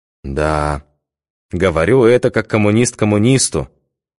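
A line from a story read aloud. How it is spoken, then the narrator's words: Sad smiling. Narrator (Russian): печально улыбнулся Михаил Дмитриевич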